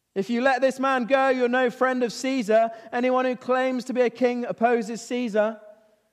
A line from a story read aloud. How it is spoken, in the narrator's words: But outside, the Jewish leaders, they're shouting